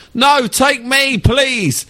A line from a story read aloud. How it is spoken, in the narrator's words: a bloke from behind, Harry Goldenfeld, shouts